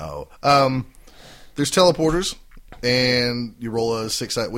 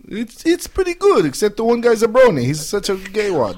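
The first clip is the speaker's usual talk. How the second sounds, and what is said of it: Vague unidentifiable foreign accent. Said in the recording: “non-committal foreign accent ... Is it Asian? Is it Irish? Is it South American? Is it South African? We don't know.”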